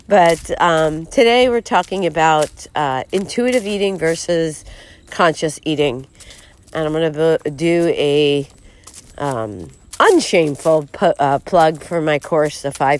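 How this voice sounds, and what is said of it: Voice with a cold. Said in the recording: “I have a little cold”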